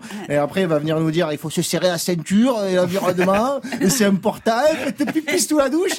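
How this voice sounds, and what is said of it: Well-practised put-on accent. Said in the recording (French): “Il est bien cet accent. ... Ouais, il est pas mal, je l'ai bossé.”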